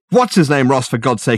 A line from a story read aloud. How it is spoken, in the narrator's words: exclaimed Richard